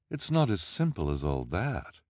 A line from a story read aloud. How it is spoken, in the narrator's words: Olivia said sadly